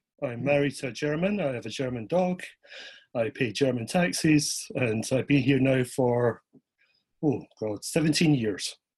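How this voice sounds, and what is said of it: Scottish accent. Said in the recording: “you have what we Americans call an accent ... I'm originally from Edinburgh in Scotland”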